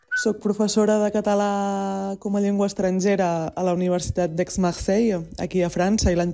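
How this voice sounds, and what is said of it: Mixed Eastern Catalan accent. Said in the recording (Catalan): “el meu català és un accent així com una mica barrejat, diguéssim ... és català oriental ... totes les as i les es que no tenen accent fan una mena de vocal, una espècie de vocal neutra”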